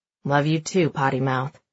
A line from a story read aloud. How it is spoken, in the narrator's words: he mumbles